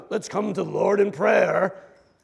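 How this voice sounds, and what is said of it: Mock British prayer voice. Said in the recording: “why we always speak in a British accent when we do that”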